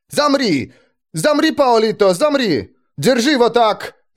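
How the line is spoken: Frenzied sudden yell. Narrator (Russian): Заорал он вдруг, словно обезумев

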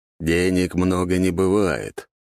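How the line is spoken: Grumbled. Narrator (Russian): пробурчал он

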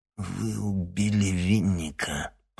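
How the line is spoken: Growled. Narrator (Russian): прорычал Никита

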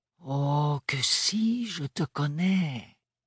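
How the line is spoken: Gentle insistence. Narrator (French): insista doucement Médiana

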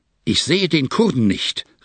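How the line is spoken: Angry shout. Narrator (German): rief er mich zornig an, indem seine Augen grimmig funkelten

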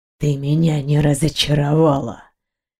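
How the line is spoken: Purring. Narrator (Russian): промурлыкал Дионар

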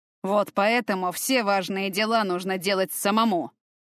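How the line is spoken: Through gritted teeth. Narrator (Russian): процедил Болднер

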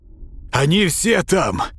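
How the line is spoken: Shouted. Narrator (Russian): крикнул он

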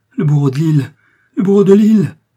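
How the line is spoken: Terrified cry. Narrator (French): s'écria Milady en proie à une terreur insensée

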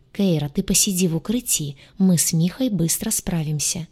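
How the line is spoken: Whisper inside her head. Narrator (Russian): прошептал у нее в голове гадюша

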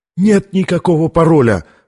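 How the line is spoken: Cry of unbearable pain. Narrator (Russian): вскрикнул от нестерпимой боли ученый

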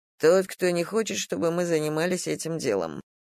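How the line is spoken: Plain. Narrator (Russian): ответил он

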